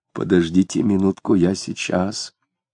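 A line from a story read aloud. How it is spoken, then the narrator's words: Quiet. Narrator (Russian): тихо сказал Захарий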